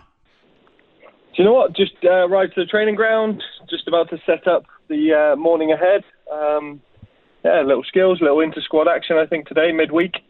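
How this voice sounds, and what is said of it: British accent. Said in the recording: “UK accent”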